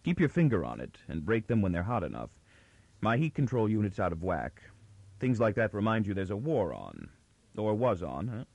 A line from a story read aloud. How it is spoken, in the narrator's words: His quick words had a jovial content, but were said in anything but a jovial tone